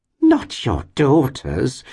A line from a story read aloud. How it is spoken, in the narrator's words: exclaimed the lady